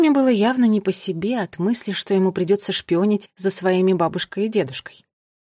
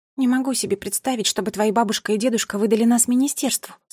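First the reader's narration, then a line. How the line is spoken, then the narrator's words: Plain. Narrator (Russian): сказала Мира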